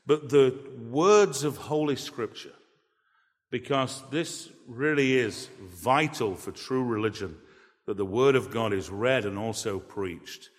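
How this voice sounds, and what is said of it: English accent. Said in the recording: “people say, oh, I just sure love that English accent ... my English accent”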